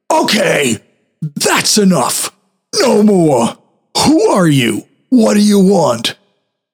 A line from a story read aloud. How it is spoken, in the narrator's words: I called out very loudly